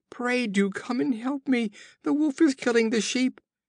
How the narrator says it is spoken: his cries

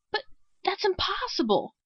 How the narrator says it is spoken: Crawford exclaimed

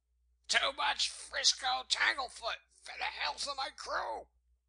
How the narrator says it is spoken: Wolf Larsen shouted after

